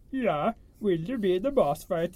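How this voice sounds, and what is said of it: Comic Muppet chef-style accent. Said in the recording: “The other accent from the same country ... That's the chef from Muppets.”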